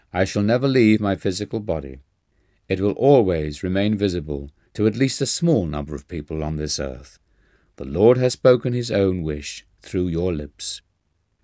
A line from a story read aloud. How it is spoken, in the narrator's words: Babaji said solemnly